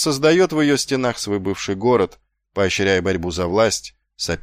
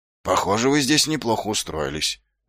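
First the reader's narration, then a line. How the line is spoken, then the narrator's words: Forced, strained words. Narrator (Russian): выдавил Ваймс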